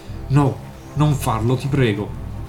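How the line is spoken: Submissive pleading. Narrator (Italian): Parla in tono di sottomissione, come si trattasse di una persona

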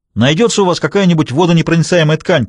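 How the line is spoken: Shouted. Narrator (Russian): крикнул он

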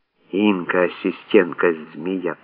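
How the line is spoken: Near-silent hiss. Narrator (Russian): почти беззвучно прошипела Лиза

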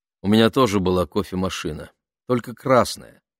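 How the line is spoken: Plain. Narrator (Russian): сказала Саша

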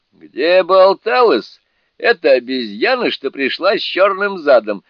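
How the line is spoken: Laughing again. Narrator (Russian): снова рассмеялся Джубадзе

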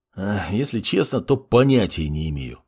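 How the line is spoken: Sighing. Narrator (Russian): вздохнул маг

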